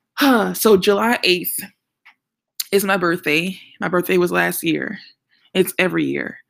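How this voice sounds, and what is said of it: New Orleans accent. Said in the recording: “If you can hear an accent and you're wondering where I'm from, I'm from New Orleans.”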